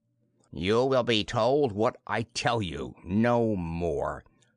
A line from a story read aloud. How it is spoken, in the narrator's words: said Shorzon haughtily